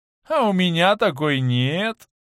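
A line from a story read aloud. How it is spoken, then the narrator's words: Sad theatrical whimpering. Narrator (Russian): добавил он грустно, талантливо захныкал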